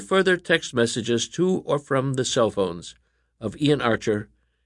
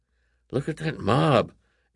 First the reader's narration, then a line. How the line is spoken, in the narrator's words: Alan whispered to his brother